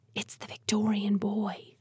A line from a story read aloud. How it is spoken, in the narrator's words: she whispered